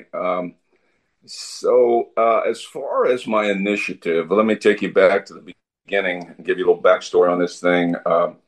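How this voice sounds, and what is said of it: Voice sounds a little weird. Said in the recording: “I caught a little virus last night, so if my voice is a little, a little weird, that's why.”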